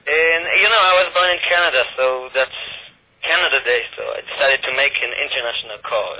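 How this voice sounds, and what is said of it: Israeli-accented English. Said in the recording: “You sound like you have a bit of a French accent ... my bad accent ... You had that kind of French accent. That was an Israeli ... accent”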